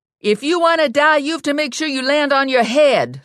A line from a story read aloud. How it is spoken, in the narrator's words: Lula yelled up to Ginny